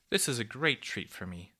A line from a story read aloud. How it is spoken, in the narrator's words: said the kindly cuckoo, beaming